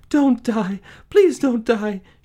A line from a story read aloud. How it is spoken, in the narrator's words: sobbed